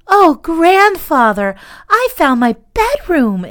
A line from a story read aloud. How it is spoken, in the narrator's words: exclaimed the little girl